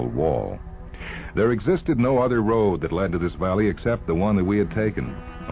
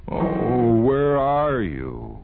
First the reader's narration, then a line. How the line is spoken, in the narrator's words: LaSalle cried in a mournful voice